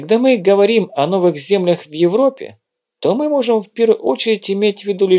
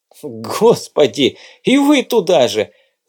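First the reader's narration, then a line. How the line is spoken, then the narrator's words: Laughing. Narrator (Russian): засмеялся Владимир Иванович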